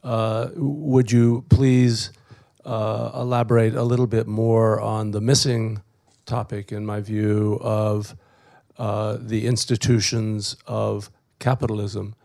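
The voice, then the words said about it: Rough voice with coughing. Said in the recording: “<coughs> ... excuse my voice.”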